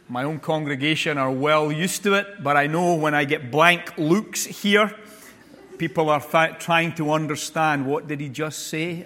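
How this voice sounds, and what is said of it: Non-American accent. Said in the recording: “it takes time for you to tune into the frequency of my accent”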